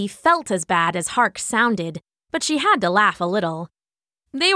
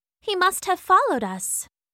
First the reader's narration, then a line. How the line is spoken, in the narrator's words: Nezzy said softly